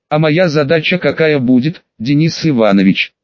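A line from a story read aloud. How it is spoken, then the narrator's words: Impassive question. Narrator (Russian): Бесстрастным тоном задал вопрос Платов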